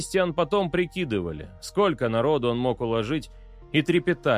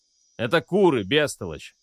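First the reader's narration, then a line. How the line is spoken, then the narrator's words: Angry bark. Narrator (Russian): рявкнул на него отец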